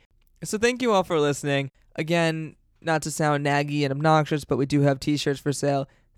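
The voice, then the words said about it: Strained, fading voice. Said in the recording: “my voice is slowly dying. I don't know if you can hear it.”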